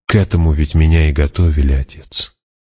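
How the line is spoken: Said gently. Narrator (Russian): мягко сказала

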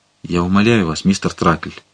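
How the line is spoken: Barely audible. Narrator (Russian): проговорил он едва слышно

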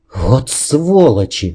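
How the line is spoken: Breathed out. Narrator (Russian): выдохнул я

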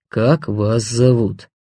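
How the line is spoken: Hesitant grumble, prisoner. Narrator (Russian): Пленник помедлил и буркнул

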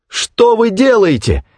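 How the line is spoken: Exclaiming. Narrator (Russian): воскликнула

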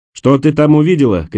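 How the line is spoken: Shouting. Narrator (Russian): крикнул Николас

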